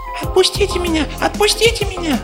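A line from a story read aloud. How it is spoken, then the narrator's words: Desperate squeal. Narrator (Russian): в отчаянии взвизгнул плюшевый мишка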